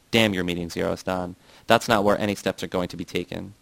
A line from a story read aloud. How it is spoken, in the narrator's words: said bitterly